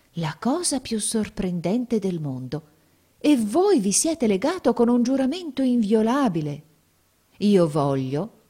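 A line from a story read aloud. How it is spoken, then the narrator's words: Exclaiming. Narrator (Italian): esclamò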